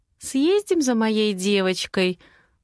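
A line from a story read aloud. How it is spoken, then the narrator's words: Gentle, affectionate voice. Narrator (Russian): Ласковым голоском предлагаю я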